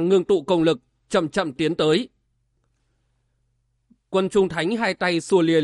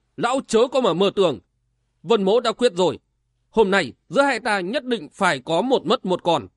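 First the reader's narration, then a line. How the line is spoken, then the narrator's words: Harsh scolding shout. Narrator (Vietnamese): Vân Giật Long gằn giọng quát nạt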